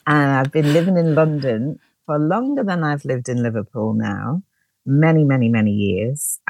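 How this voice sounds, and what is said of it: Liverpool accent. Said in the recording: “I'm originally from Liverpool, as you might be able to hear from my accent.”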